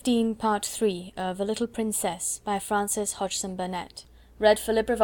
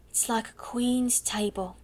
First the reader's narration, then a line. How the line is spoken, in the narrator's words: sighed Becky